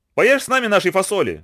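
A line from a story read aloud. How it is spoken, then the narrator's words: Monkeys shouting. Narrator (Russian): закричали обезьяны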